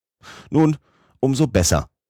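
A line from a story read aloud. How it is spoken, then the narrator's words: Calling out. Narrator (German): rief mein Oheim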